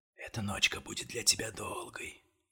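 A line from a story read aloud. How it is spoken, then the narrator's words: Drunken whisper. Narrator (Russian): пьяный шепот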